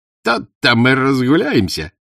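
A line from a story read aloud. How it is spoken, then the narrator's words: Cheerful exclamation. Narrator (Russian): весело воскликнул Кузьма Шорох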